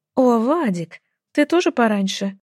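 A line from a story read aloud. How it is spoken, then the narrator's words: Said joyfully. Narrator (Russian): Радостно заметила я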